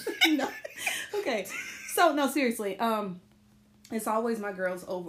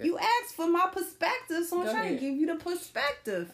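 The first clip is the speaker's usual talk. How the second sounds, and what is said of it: Put-on New York accent. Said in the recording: “my little New York accent”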